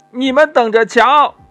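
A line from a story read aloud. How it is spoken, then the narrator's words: Angry shouting. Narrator (Chinese): 国王气呼呼的在走廊里大叫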